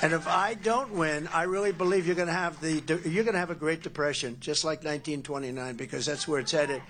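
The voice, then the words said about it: New York accent. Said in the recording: “the New York accent. ... It's unmistakable.”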